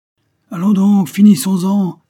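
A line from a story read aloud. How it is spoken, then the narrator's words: Soldiers shouting together. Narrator (French): s'écrièrent les soldats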